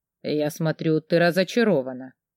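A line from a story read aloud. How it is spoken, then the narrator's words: Quiet. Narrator (Russian): тихо проговорил он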